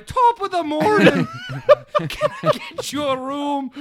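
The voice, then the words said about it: Over-the-top Irish accent. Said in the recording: “over the top Irish... sounds like they're in a Lucky Charms commercial”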